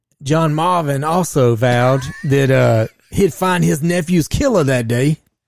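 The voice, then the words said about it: Exaggerated put-on Southern US accent. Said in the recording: “That's about as southern as I can get. ... I sound like a black dude, though. I'm trying to sound more like Colonel Sanders.”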